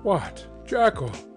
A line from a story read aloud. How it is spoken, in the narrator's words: he cried